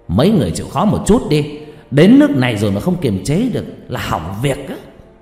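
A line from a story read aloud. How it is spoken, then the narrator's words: Sudden loud shout. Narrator (Vietnamese): hai ông thầy bỗng quát lớn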